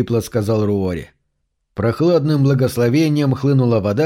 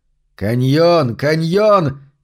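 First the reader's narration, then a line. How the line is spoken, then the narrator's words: Weak attempted battle cry. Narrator (Russian): крикнул он, но это было лишь слабое подобие боевого клича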